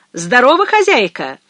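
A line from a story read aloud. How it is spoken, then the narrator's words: Loud hail. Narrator (Russian): окрикнул он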